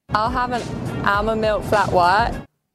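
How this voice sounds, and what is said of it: Sloppy attempted Australian accent. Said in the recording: “giving the Australian accent their best shot ... gave her impression ... Oh, that's actually terrible ... it's pretty sloppy, isn't it?”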